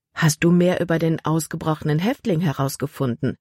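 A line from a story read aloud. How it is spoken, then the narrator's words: Plain. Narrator (German): fragte sie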